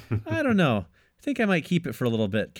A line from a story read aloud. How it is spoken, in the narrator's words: Carol says with a laugh